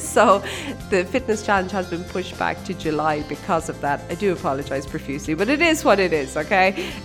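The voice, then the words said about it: Congested, sick-sounding voice. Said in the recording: “I still have this thing. I've had this head cold, flu type thing ... it's definitely not gone, as you can probably tell from my voice.”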